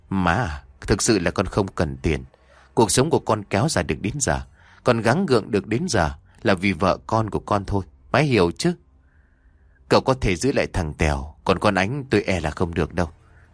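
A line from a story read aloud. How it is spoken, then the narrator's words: Smiling. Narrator (Vietnamese): Sang mỉm cười nói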